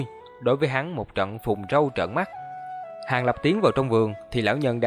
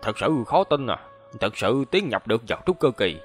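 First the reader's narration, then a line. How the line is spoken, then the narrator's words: Muttering. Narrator (Vietnamese): lẩm bẩm nói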